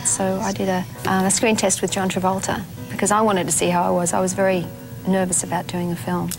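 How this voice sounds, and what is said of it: Australian accent. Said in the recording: “I'm an Australian. I'd really like to stay that way”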